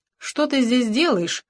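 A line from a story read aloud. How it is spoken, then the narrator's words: Sharp question. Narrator (Russian): резко спросила Юджиния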